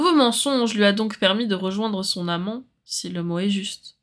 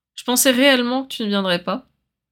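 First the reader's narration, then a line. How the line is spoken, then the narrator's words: Plain. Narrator (French): dit Regulus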